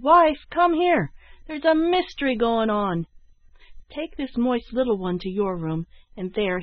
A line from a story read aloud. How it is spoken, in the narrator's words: he shouted